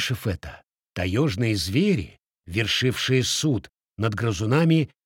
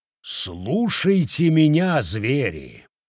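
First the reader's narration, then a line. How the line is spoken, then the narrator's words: Tiger's growl. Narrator (Russian): прорычал тигр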